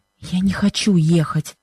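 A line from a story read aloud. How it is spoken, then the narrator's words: Anguished whisper. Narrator (Russian): шепнула она Бену с выражением страдания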